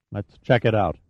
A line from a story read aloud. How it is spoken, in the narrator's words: Dupree said quietly